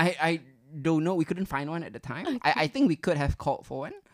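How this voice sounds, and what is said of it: Usual voice. Nothing is said of it.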